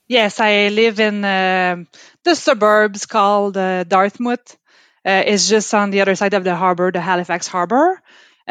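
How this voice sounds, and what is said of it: Quebec French accent. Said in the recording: “Based from my accent, I am clearly not from Nova Scotia. I'm from Quebec. ... my mother tongue is French, from Quebec ... that beautiful French accent”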